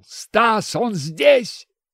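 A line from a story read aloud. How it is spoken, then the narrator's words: Startled shout. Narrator (Russian): Врач, дернувшись, крикнул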